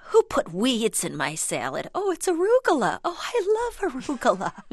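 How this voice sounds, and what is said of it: Impression of her mother's voice. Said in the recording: “I love how you do her voice. ... I do do a good job. ... I'm genuinely becoming my mother ... there's going to be no impersonation.”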